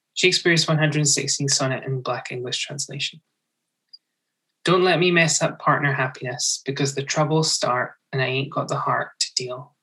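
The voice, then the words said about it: Speaks in own natural accent. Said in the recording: “I apologize to listeners for my accent, but I'm just going to read it my regular accent.”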